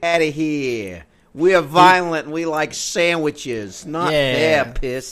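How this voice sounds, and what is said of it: Put-on New York accent. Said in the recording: “Even though I think that's a New York accent.”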